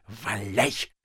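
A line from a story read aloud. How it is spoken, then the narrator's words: Whispered to himself. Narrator (Russian): шептал Остап самому себе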